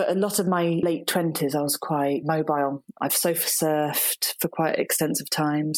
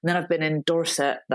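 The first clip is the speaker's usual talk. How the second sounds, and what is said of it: Poor put-on Dorset accent. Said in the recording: “That's the worst Dorset accent in the world.”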